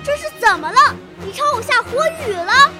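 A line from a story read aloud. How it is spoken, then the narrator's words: Startled shout. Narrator (Chinese): 他一下子跳起来喊着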